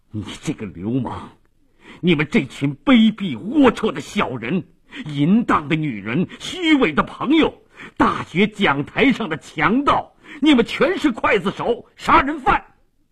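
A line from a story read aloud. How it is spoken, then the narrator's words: Shocked, furious shouting. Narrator (Chinese): 马利奇极其震惊，突然他怒不可遏地大声地叫道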